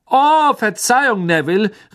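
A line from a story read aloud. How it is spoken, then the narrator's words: Calling over laughter. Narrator (German): rief Fred durch das allgemeine Gelächter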